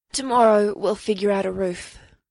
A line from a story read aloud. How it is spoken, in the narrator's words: he said, his voice hoarse with exhaustion, both from all the magic and from hefting the logs